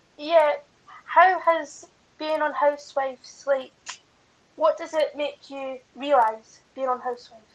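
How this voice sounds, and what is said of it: Scottish accent. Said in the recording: “I'm from Scotland... Oh, Scotland... I love your accent.”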